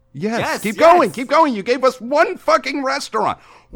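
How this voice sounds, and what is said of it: Yelling, frustrated loud voice. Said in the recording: “Why are you yelling at me”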